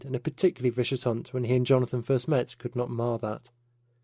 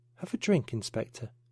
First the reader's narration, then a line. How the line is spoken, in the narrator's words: said quietly